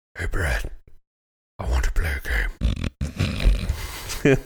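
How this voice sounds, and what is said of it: Imitates a horror movie villain. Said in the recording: “I do a jigsaw impression”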